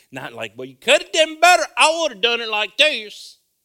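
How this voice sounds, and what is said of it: Put-on Texas accent. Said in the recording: “You guys didn't know I had that Texas accent, did you? Oh, I live in that.”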